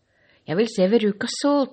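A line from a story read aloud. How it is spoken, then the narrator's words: Shout from crowd. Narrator (Norwegian): ropte enda en ut i folkemengden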